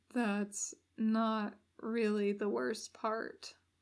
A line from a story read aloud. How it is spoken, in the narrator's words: Damien adds, horribly quietly